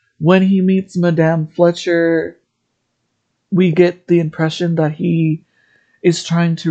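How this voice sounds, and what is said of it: Usual voice. Nothing is said of it.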